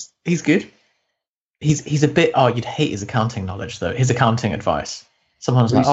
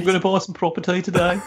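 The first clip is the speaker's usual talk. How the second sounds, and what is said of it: Imitated Birmingham accent. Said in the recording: “who's that brummy real estate trader? ... That's a very good accent.”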